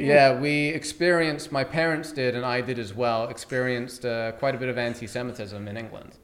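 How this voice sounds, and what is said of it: British accent. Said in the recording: “you still got the accent strong ... To Americans, I sound British, and to British people, I sound American”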